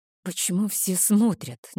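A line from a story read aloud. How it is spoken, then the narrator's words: Nervous uneasy whisper. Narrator (Russian): нервно прошептала я, чувствуя себя крайне неуютно под перекрестными взглядами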